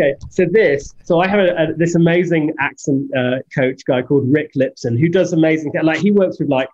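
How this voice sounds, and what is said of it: Usual voice. Nothing is said of it.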